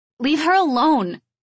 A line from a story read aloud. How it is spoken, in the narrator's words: I shouted with all my mousy might